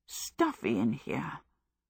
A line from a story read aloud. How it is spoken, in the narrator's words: Sophie muttered several times